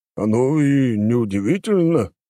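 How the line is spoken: Snorting. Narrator (Russian): хмыкнул Трофим

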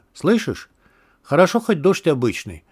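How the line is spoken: Indifferent tone. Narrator (Russian): безразличным тоном произнес изгой

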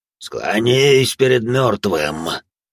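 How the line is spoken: Undead growl, mouth closed. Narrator (Russian): прорычала нежить, не открывая рта

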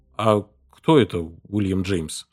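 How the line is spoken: Plain question. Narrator (Russian): спросил я

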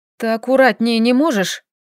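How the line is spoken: Grumbled. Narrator (Russian): буркнула

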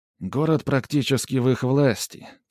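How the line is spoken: Heavy-sighing reply. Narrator (Russian): тяжело вздохнув, ответил

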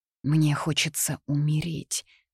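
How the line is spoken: Whispered. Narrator (Russian): прошептала я

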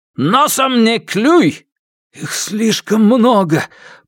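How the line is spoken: Hoarse rasp. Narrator (Russian): Прохрипел Алексей

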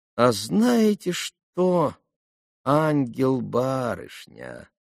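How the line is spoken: Sudden sugary drawl. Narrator (Russian): вдруг протянула она самым уже нежным и слащавейшим голоском

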